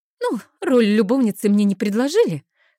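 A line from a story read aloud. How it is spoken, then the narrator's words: Wry snort. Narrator (Russian): хмыкнула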